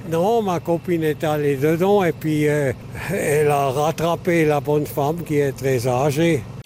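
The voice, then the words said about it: Slight regional accent. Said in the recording (French): “une personne avec un petit accent”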